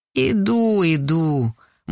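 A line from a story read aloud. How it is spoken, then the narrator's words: Gloomy mumble. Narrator (Russian): мрачно бубнит Анисов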